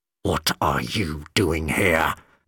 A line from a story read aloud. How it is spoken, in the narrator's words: McCavity hissed angrily